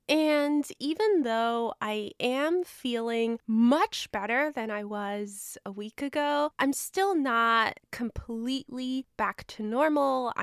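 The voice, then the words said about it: Sick-sounding voice. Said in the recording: “as you can probably tell by my voice, I have been dealing with a very nasty illness. I'm 90% sure I had the flu”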